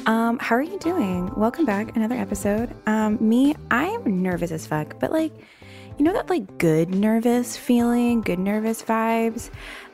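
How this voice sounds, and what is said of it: Slight Southern accent. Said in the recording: “Are you feeling a little southern like I am? With my little southern accent showing.”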